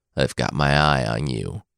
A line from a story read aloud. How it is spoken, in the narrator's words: he said in a menacing tone